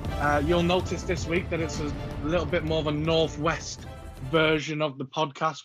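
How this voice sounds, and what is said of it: Slight Scouse accent. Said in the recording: “You'll tell by my voice, it's the slightly scouse version.”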